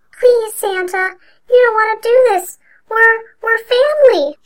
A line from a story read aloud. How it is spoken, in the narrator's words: sobbed